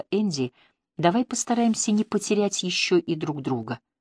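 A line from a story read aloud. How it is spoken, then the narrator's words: Quiet. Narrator (Russian): тихо проговорила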